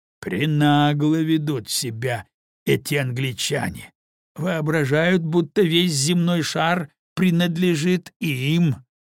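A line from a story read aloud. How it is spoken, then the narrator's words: Grumbling. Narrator (Russian): проворчал полковник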